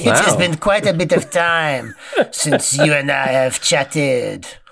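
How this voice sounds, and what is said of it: Put-on French accent. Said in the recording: “you go right into the accent ... French”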